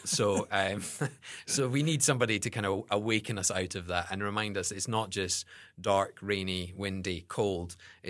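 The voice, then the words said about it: Scottish accent. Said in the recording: “the Scottish accent is better than the Texan accent”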